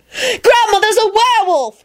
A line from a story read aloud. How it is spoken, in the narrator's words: she screamed at the top of her lungs